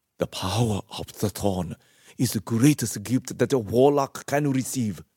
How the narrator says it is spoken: she said through gritted teeth

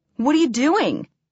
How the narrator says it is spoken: exclaimed Ryan

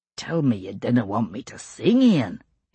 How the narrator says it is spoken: his uncle murmured

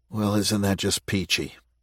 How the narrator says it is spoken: Matt grumbled

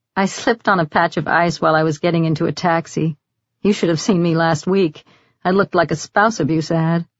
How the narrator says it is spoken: Nora said with an embarrassed little laugh

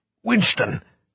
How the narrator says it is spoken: Cuthbert hissed

